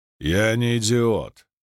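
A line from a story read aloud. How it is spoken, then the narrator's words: Regal grumble. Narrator (Russian): проворчал царственный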